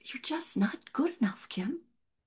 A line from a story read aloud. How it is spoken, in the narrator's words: Fear that causes so much self-doubt, that whispers